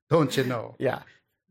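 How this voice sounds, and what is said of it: Put-on Minnesota accent. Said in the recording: “Minnesota accent”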